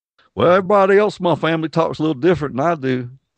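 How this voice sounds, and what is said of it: Decent put-on Southern accent. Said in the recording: “That's not a bad accent. You can do a pretty decent one.”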